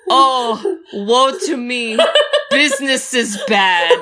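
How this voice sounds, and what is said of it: Well-done imitated character accent. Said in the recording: “You do their accents really well.”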